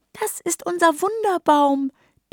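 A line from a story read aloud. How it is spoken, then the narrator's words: Proud squeaky tiny voices. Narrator (German): piepsen die Winzlinge stolz von allen Seiten zu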